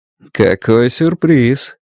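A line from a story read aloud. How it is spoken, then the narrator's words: Ingratiating, insinuating. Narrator (Russian): вкрадчиво произнес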